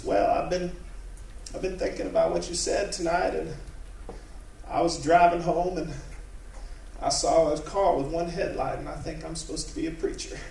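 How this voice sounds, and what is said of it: Impression of a church woman. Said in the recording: “this is a good impression”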